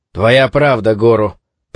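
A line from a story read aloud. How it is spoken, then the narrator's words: Grumbling. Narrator (Russian): проворчал Куроба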